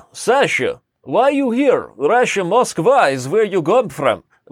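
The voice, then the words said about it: Put-on Russian accent. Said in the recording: “there's different types of Russian... accents”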